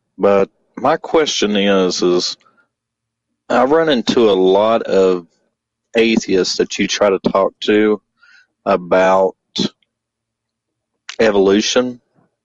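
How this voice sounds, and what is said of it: Southern American accent. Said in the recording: “if you can't tell by the Southern accent”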